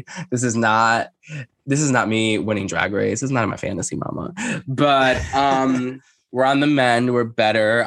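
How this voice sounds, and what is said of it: Rough, congested voice. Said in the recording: “I still sound a little rough ... in a congested COVID voice.”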